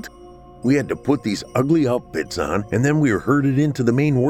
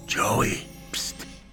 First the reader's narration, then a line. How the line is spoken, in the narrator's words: whispered Darius